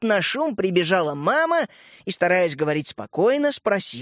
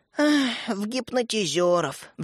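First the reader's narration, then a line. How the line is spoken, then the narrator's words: Sigh. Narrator (Russian): вздохнул Светлик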